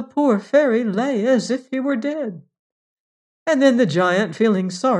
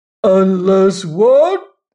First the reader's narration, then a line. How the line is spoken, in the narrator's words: roared the giant